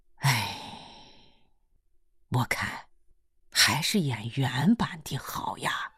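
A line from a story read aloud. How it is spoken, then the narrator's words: Long sigh. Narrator (Chinese): 秦八娃长叹了一声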